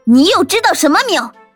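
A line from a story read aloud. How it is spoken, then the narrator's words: Angry roar. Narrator (Chinese): 桃子正在气头上的，对着猎奇大吼了一声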